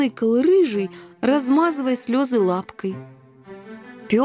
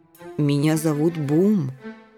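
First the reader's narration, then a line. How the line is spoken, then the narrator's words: Soft interjection, dog. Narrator (Russian): мягко вставил сен-бернар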